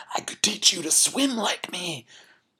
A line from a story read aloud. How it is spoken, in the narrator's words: just when the fish is about to die from the altitude and the lack of oxygen and the talons, he gasps